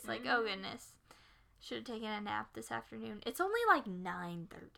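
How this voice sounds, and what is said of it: Tired sounding voice. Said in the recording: “Very tired sounding ... I can hear it in my own voice.”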